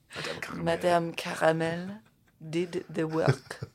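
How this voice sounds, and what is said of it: Put-on French accent. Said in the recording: “Can you do that in a French accent?”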